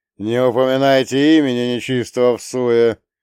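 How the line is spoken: Thunderous inner bark. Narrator (Russian): громовым голосом рявкнул младший архангел из самой глубины моей сущности

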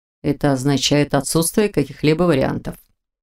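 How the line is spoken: Muffled reply. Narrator (Russian): глухо отозвался Непогодин

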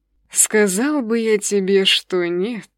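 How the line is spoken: Dreamy sigh. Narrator (Russian): мечтательно вздохнул Архимаг

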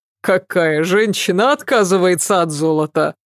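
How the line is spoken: Chuckling. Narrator (Russian): Хохотнул Фарид

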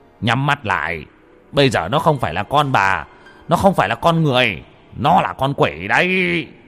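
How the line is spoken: Shouting. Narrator (Vietnamese): Ông Mo quát lên

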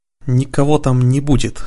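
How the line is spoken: Angry through teeth. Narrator (Russian): со злостью процедил Радхар

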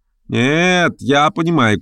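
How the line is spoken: Shouted. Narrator (Russian): крикнул третий

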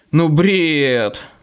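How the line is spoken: Groaning. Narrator (Russian): застонал я

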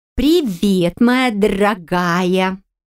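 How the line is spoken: Plain. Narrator (Russian): сказала

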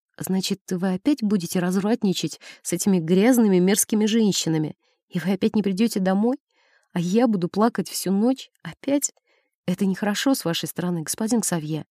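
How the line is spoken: Whispered. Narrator (Russian): я прошептала

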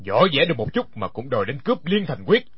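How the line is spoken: Cold mocking laugh. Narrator (Vietnamese): Đinh Điển lạnh lùng cười nói

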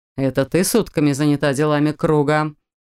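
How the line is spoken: Scoffing snort. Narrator (Russian): фыркнул брат

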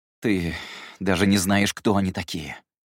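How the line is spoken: Irritated exhale. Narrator (Russian): Выдохнув раздраженно, сказал Гедеон

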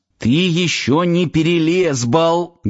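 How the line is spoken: Muffled growl. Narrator (Russian): глухо зарычал Сафонов

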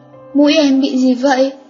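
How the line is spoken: Stammering. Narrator (Vietnamese): lắp bắp nói

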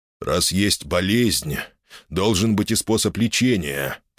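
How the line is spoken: Through gritted teeth, guard. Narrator (Russian): процедил охранник

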